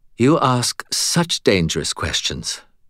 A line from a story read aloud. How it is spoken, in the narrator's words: she breathed after a moment